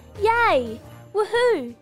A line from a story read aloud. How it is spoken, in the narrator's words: they both shouted happily